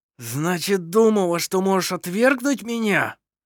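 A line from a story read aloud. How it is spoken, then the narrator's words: Hoarse wheeze. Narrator (Russian): сипел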